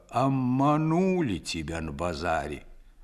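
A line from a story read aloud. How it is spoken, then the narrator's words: Old man, muffled voice. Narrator (Russian): Дед вымолвил глухо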